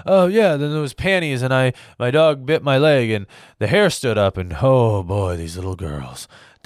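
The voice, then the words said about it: Rambling Joe Biden impression. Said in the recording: “That's Joe Biden. That is my impression of Joe Biden. That's what he sounds like when he's giving a speech, right? The guy can't even complete a sentence.”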